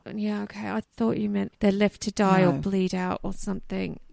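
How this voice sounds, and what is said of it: Australian accent. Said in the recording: “sound so Australian”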